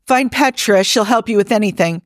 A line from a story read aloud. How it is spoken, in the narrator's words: Jim sprints off to yell